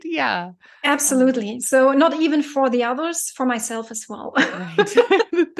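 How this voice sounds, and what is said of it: German accent. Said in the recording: “your accent. ... I'm from Germany.”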